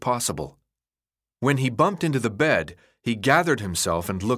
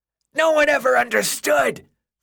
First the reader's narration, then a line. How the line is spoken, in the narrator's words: the boy screamed over the horrible noise of the creature